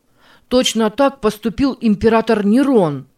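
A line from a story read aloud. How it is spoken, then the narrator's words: Heated exclamation. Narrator (Russian): горячо воскликнул Мартин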